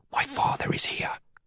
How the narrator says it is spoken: I whisper, as softly as I can

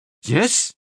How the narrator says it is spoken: Nielsen said eagerly

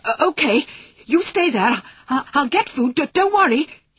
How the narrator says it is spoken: he gasped as he scrambled out of bed

